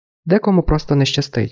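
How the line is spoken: Calm, detached. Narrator (Ukrainian): додала спокійно, ніби йшлося не про неї саму

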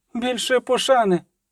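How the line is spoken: Shouted, cracking voice, lady. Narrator (Ukrainian): крикнула ламким голосом дама у роброні

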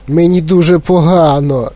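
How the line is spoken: Moaned. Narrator (Ukrainian): застогнала Віолета

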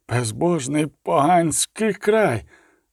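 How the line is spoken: Mutter. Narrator (Ukrainian): пробурмотів Генріх фон Швельборн

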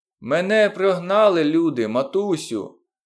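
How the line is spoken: Shouting. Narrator (Ukrainian): закричав Моглі

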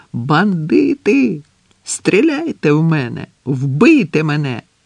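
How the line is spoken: Painful wild laughter. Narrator (Ukrainian): Ель Сордо сміявся так, що аж боліло в грудях

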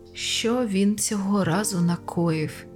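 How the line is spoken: Sighed. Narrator (Ukrainian): Зітхнув

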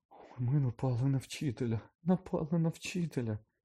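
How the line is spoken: Terrified moan. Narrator (Ukrainian): простогнала Герміона, нажахано

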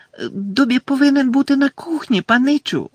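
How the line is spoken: Squeaky elf voice. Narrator (Ukrainian): запищав ельф

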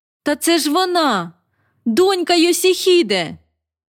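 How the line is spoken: Nearly shouting. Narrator (Ukrainian): Я трохи не закричала

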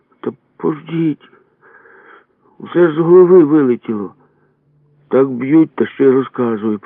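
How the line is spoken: Groaned. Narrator (Ukrainian): простогнав

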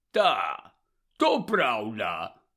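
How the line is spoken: Hoarse. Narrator (Ukrainian): прохрипів він

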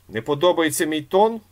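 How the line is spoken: Loud question. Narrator (Ukrainian): голосно запитував Іполит

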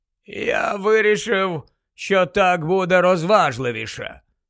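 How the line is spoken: Goblin, hollow muffled voice. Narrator (Ukrainian): пояснив гоблін з глухим голосом

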